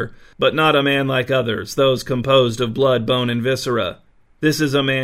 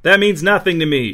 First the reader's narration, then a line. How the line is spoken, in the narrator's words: shouted King Actus